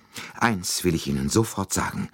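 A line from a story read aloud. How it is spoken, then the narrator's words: Breathless. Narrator (German): begann sie atemlos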